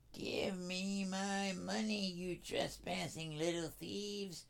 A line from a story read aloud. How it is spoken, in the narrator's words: screeched Betty